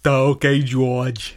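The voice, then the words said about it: Impersonation of a slow-witted character voice. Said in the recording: “my impersonation of ... That was beautiful.”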